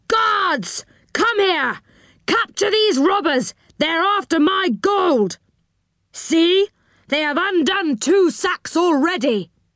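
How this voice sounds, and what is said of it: Loud shouting character voice. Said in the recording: “Shouted the enchanter in a loud voice.”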